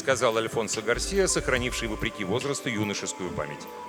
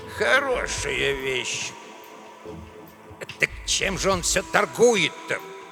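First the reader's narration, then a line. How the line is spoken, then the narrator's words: Grumbling. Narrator (Russian): ворчал Эдуардо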